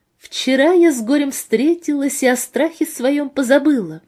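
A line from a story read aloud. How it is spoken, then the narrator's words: Singsong into phone, laughing. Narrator (Russian): пропела она в трубку и рассмеялась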